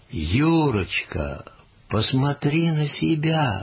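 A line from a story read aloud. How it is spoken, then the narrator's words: Exclaiming mother. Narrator (Russian): воскликнула мама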